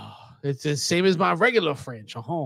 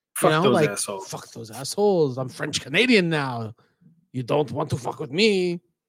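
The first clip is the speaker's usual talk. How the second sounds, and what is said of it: Weird put-on French Canadian accent. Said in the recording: “Your French Canadian accent is very weird.”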